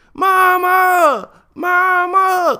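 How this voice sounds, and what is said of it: Screaming. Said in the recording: “I'm screaming”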